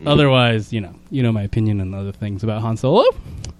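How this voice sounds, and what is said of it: Voice rising with massive inflection. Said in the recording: “did your voice go up there with a massive inflection”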